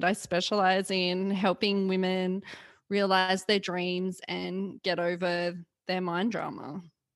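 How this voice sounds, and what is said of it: Australian accent. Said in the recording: “her Australian accent? It is the best”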